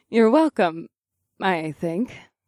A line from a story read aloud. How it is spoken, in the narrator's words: Elizabeth laughed